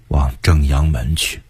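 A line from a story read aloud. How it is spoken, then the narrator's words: Sighing. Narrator (Chinese): 崇祯叹息说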